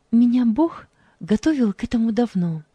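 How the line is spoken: Said calmly. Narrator (Russian): спокойно произнесла она

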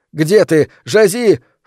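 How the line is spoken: Panicked yelling. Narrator (Russian): в панике вопил

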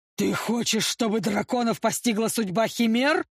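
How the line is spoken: Growling elder lord. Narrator (Russian): рычал старший лорд

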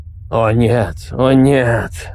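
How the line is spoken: Quiet old man repeating. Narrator (Russian): повторял старик тихо

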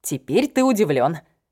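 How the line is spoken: Smirking snort. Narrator (Russian): хмыкнула я

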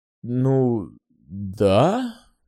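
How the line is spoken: Hesitant but willing agreement. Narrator (Russian): несколько неуверенно, но охотно согласился я

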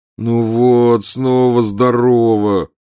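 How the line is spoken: Groan. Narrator (Russian): простонал Гарри

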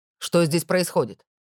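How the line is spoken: Barked. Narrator (Russian): Рявкнул он

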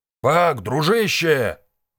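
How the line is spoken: Bellowing at full volume. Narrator (Russian): во всю глотку заорал он

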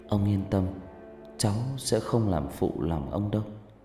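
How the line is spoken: Soft, gentle. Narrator (Vietnamese): Cô cúi đầu khẽ nói với ông

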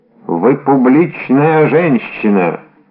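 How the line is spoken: Thunderous declaration. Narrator (Russian): заявил он громовым голосом

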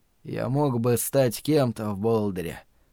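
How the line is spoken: Quiet weary voice. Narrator (Russian): тихо произнес он, не будь он таким усталым и обезвоженным

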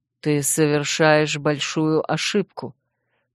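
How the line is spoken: Through gritted teeth. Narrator (Russian): процедил Линувель

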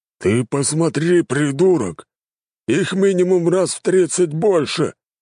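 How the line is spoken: Growling. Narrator (Russian): рыкнул Кулаков

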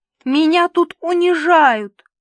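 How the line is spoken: Sob. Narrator (Russian): всхлипнул Карлуша

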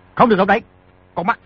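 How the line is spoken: Sharp shout. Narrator (Vietnamese): Di Tiểu Bảo quát

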